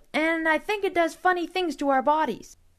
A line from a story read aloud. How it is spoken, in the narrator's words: I blurted out